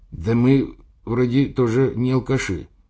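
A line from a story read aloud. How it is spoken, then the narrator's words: Hesitant. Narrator (Russian): неуверенно сказал перевязанный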